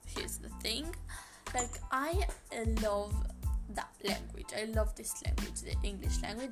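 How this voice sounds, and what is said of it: Non-native English accent. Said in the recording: “English is not my first language ... notice my accent changing ... I can shift my my accent.”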